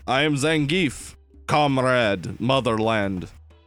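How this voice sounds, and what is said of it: Put-on Russian accent. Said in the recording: “Russian is just English with a Russian accent.”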